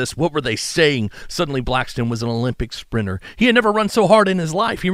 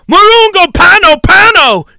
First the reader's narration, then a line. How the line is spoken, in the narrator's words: the Africans all around him screaming